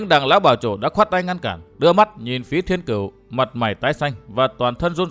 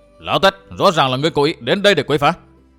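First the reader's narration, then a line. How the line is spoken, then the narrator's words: Several voices, angry shout. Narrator (Vietnamese): Vũ Á Vinh, Trương Đại Thành, Tô Quang Khai và Diệp Tấn Đức giận dữ quát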